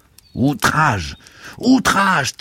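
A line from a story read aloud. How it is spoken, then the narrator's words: Thundered. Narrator (French): tonnait oncle Vania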